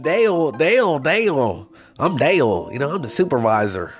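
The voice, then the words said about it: Country Kentucky accent imitation. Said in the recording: “this guy sounded country as fuck ... fucking country motherfucker, you know, from Kentucky ... You talk like you from Kentucky”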